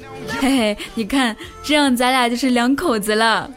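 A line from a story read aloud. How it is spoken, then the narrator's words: Laughing. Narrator (Chinese): 笑着说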